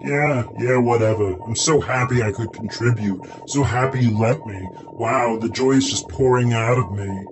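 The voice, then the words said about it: Sarcastic, mock-enthusiastic delivery. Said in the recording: “I'm not being for real. I'm being sarcastic.”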